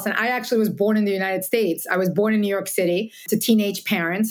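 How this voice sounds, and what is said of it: Slight Latin American accent. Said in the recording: “I have a slight accent”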